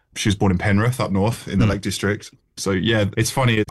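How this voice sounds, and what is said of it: Slight Australian accent. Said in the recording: “You've still got that twinge though. You've still got the accent, haven't you? It's the classic, yeah. It's the nose, it's the homes, it's the O sound, isn't it?”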